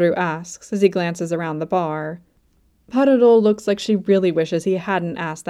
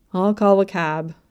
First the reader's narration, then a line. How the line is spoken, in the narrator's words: Kabru sighs